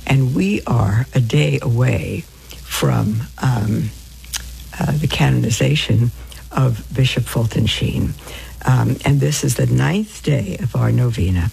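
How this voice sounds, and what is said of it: Slightly hoarse voice. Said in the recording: “my voice sounds a little hoarse,”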